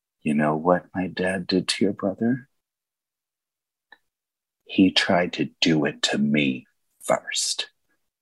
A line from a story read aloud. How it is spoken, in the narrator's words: whispers